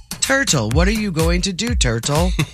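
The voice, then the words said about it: Imitates another person's voice. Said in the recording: “my impression of Nick doing Adrian Grenier”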